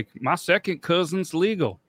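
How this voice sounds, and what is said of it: Put-on southern accent. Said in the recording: “I don't know why it came out with the southern accent”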